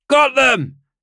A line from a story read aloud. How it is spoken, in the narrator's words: Yuri shouted